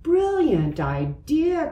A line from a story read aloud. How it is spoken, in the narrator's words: cried Elephant